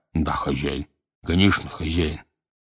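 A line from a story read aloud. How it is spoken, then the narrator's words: Muffled muttering. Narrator (Russian): Оба глухо бормоча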